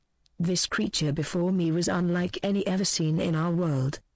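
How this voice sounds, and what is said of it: British female accent. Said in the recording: “Our world, said in a British female accent”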